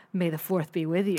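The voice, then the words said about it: Skeevy, slightly sexy guy voice. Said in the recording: “your impression of a skeevy guy at like a 7-Eleven going, May the 4th, baby ... It sounded a little sexy.”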